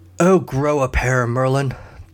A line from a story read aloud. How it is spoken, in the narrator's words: the king grunted